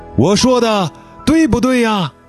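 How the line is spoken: Loud question. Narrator (Chinese): 杰巴勒高声地发问

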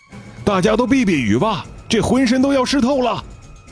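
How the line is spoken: Loud shout. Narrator (Chinese): 副队长在私钻房里大喊着

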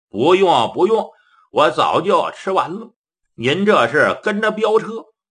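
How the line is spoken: Smiling. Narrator (Chinese): 崔掌柜的一笑

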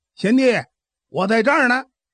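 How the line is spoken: Man shouting. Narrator (Chinese): 赏雪亭先来那位大汉喊声了

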